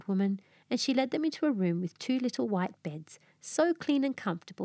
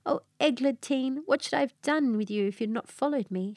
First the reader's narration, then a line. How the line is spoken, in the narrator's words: she cried, in a transport of delight